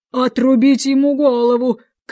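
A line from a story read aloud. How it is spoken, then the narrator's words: Shout. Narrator (Russian): крикнула она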